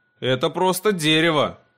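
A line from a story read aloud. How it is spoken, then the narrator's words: Boy's skeptical snort. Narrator (Russian): хмыкнул мальчуган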